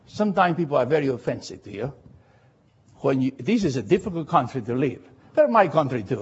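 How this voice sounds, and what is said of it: Latino accent. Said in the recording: “somebody heard my accent and turned around and said, oh, you are the Latino preacher.”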